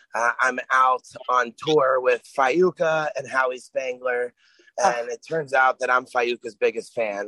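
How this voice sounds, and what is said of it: Raspy, strained hoarse voice. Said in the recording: “My voice is a little raspier than usual, although it typically is anyway... you end up with no voice”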